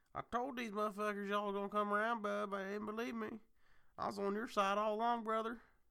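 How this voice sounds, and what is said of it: Hick accent. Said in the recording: “my hick accent”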